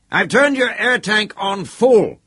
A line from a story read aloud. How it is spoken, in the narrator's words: shouted